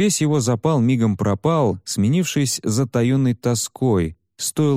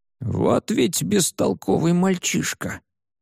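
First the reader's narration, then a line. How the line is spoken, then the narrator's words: Old man grumbling. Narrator (Russian): проворчал старик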